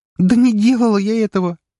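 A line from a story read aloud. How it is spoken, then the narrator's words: Near-shouting, tearful. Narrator (Russian): едва не закричала она, и на ее глазах появились слезы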